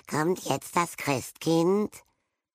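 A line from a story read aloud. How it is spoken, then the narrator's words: Small boy croaking. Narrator (German): Der kleinere Besenrieder-Knabe krächzte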